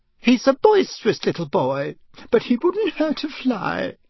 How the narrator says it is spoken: Aunt Petunia had said tearfully

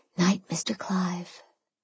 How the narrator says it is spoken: I whispered

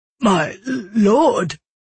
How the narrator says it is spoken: the guard stammered

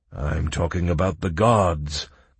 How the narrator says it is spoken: grumbled the Archmage

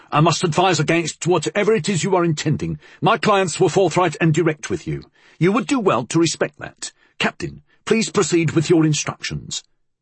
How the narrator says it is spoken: Utterson called sharply

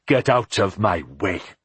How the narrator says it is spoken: said fiercely

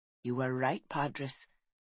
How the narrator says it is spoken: Caswellan whispered to the sky

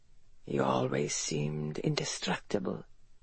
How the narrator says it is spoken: he said quietly

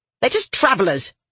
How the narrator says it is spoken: the woman snapped

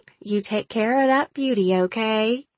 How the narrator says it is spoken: Tammy said, her voice light and playful

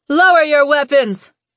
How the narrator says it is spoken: Lou shouted

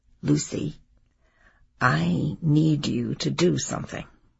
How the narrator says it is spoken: she said to me quietly

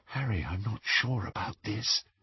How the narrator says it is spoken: breathed Hermione

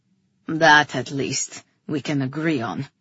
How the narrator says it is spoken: Rian grunted

